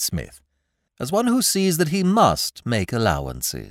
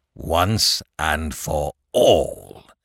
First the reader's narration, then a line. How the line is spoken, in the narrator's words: growled Mr